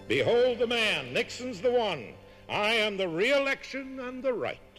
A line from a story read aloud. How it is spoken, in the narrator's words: he cried out to them